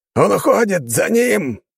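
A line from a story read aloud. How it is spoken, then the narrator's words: Rider's shout. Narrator (Russian): прокричал кто-то из этих всадников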